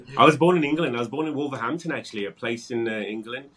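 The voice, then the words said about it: British accent. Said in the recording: “You do have an accent. Is that, let me guess, British accent?”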